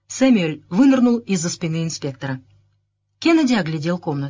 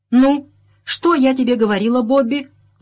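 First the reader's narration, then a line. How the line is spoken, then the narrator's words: Exclaimed. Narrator (Russian): воскликнула миссис Ленокс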